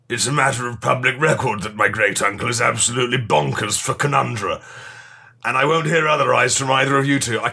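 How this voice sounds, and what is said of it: Put-on slightly gruffer character voice. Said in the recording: “I put in a voice... And I'm committed to the voice now... just is you, but slightly gruffer”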